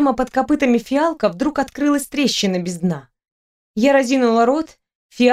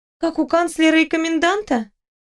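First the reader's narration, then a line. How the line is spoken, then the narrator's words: Sighing. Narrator (Russian): Аберон вздохнул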